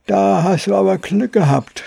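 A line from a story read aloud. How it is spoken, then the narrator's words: Childlike voice. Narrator (German): sprach er mit kindlicher Stimme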